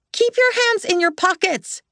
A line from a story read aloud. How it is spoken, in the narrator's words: she screamed